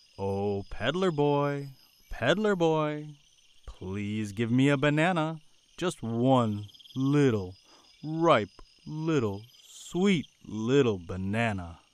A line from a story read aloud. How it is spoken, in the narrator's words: Again, the monkey said, this time, in a little louder voice